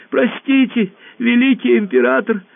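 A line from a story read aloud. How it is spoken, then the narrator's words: Squeaky voice. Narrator (Russian): пропищал Мяч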